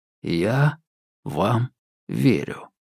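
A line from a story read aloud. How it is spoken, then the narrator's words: Slow reply. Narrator (Russian): медленно ответил я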